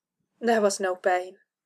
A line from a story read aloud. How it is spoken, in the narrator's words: Kara said, so very softly